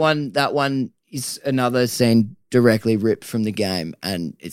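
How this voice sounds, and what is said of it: Usual voice. Nothing is said of it.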